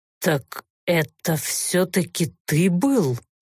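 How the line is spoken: Suspicious, through gritted teeth. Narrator (Russian): Подозрительно рассматривая странного гостя, процедил Олторн

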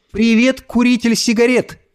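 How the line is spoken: Shouted. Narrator (Russian): прокричала она

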